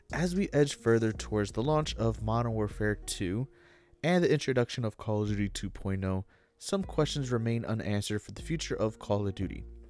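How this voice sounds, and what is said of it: Reading aloud in a narrator voice. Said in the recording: “I'm going to throw in my reader voice”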